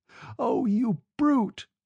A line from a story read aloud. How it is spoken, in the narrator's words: she sobbed